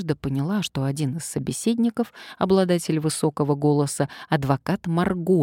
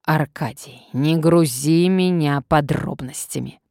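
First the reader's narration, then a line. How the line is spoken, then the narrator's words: Commanding hiss. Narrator (Russian): прошипел властный голос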